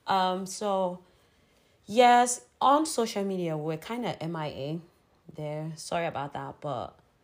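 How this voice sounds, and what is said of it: Hoarse, crackly voice. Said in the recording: “I didn't have a voice. And now I think you can still even hear my voice is a bit crackling.”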